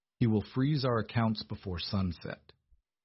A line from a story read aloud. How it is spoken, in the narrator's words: Thomas said, his voice flat, devoid of any romantic reassurances